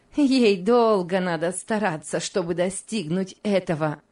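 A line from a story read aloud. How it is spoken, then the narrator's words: Contemptuous laugh. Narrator (Russian): презрительно засмеялась Мари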